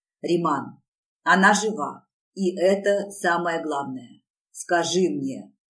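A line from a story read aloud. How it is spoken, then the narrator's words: Growling. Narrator (Russian): зарычал на него я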